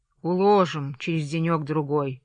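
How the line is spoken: Grumbling. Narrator (Russian): проворчал Хитклифф

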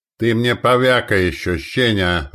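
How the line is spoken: Barking snap. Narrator (Russian): рявкнул мастер

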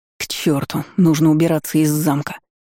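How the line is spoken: Hoarse rasp. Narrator (Russian): захрипел он

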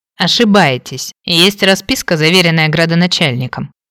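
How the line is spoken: Cold, mocking. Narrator (Russian): сказал Кейн, холодно взглянув на меня, с насмешливой гримасой добавив

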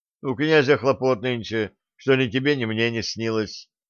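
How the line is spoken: Calm reply. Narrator (Russian): спокойно отвечал преподаватель

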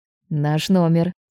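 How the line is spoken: Solemn announcement. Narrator (Russian): Торжественно объявляет

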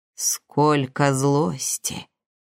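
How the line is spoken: Quiet muttering. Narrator (Russian): тихо бормочет он

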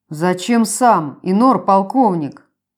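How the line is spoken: Confident deep voice. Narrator (Russian): уверенно пробасил

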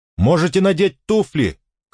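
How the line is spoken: Shouting. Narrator (Russian): крикнул он

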